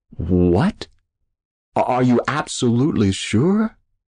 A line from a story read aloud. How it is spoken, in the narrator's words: He finally stammered